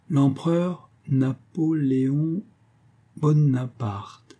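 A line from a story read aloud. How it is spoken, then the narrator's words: Very slow, syllable by syllable. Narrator (French): dit-elle très lentement, et planche chaque syllabe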